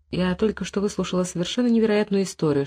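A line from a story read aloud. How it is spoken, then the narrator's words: Whispered. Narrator (Russian): шепнула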